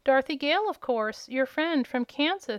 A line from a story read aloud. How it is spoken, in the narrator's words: she answered